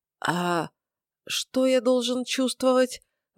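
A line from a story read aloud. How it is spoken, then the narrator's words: Suddenly hoarse question. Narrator (Russian): Внезапно осипшим голосом поинтересовался я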